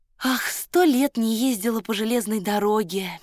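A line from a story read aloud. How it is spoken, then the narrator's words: Dreamy sigh. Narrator (Russian): мечтательно вздохнула она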